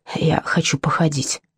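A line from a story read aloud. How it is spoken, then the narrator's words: Whisper in ear. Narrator (Russian): шепнул на ухо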